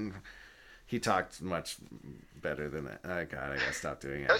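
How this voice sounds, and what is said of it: Usual voice. Nothing is said of it.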